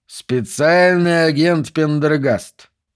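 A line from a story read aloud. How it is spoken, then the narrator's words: Drawling. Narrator (Russian): протянул Брисбейн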